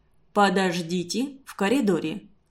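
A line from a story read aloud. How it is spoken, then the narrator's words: Calm repetition. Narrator (Russian): спокойно повторил Константин Семенович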